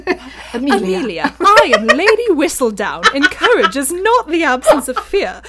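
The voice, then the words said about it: Put-on British accent. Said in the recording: “sound like they need to be in a British accent ... Lady Whistledown, Julie Andrews' voice”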